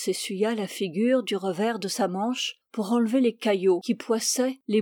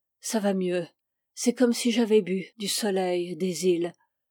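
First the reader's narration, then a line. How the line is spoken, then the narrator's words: Contented sigh. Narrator (French): il dit, avec un soupir d'aise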